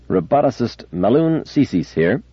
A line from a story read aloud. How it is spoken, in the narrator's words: said the figure, in a rather sharp, clear voice